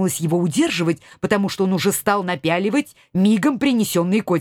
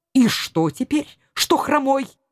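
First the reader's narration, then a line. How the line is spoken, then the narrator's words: Angry reply. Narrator (Russian): Так сердито отозвался он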